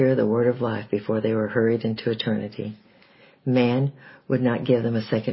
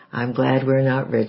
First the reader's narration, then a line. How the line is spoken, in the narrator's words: he chuckled